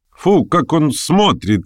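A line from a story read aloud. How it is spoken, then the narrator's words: Gleeful triumphant laughter. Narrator (Russian): весело рассмеялась торжествующая Арина Прохоровна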